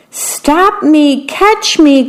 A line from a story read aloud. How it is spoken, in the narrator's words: cried the worm